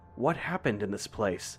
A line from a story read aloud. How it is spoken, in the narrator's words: I whispered to myself